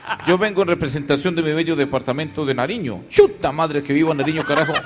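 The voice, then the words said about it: Sergio Fajardo impression, Pastuso accent. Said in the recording (Spanish): “como el doctor Sergio Fajardo, que ahora también aprendió a hablar pastuso... de todos los acentos, este es el que mejor le sale”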